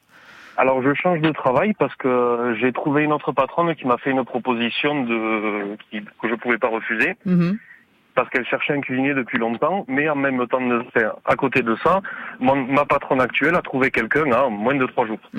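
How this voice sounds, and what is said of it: Singsong regional French accent. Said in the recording (French): “j'entends chanter votre accent, vous êtes dans quelle région?... Dans l'Aveyron.”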